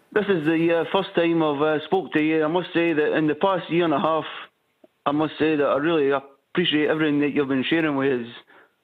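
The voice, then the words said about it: Scottish accent. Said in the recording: “That's not a Harrogate accent. ... I come from Ayrshire. In Scotland.”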